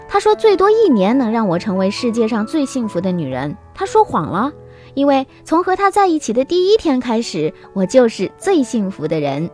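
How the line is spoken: Laughing. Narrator (Chinese): 姑娘笑着说

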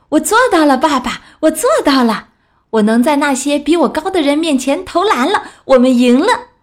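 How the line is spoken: Excited shouting. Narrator (Chinese): 他冲进厨房，兴奋的大喊

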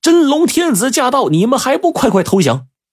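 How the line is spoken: Shouting while charging. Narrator (Chinese): 农民军一边往树林里冲，一边喊

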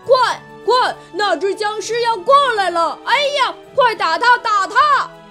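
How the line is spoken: Boys shouting. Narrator (Chinese): 男孩子们则发出喊声

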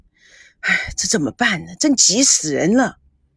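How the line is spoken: Long sigh. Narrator (Chinese): 赵刚、田心雨长叹了一口气

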